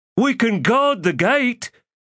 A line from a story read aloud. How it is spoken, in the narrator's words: Scorch shouted